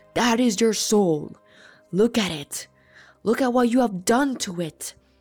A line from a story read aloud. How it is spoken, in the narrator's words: the loudest, most magnificent, booming voice I'll ever hear proclaims